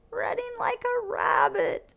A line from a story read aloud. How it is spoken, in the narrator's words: wheezed Melissa